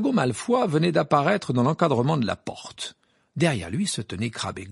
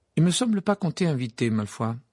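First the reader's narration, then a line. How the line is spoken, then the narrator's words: Icy voice. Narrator (French): dit Harry d'une voix glaciale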